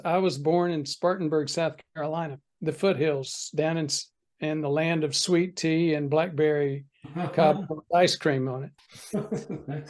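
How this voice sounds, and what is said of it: Mild Southern US accent. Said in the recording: “I grew up in the Deep South ... you may recognize a little bit of an accent here”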